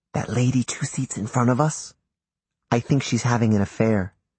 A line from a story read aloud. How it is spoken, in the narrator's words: he whispered in my ear